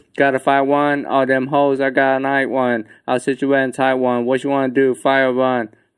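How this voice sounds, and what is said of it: Breathless, out-of-breath rapping. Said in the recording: “I'm out of breath, bro.”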